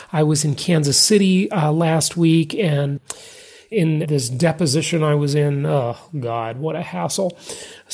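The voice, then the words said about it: Sick-sounding voice. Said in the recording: “maybe you can tell in my voice, I've been a little bit sick”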